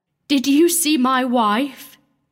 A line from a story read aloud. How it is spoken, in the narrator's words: he cried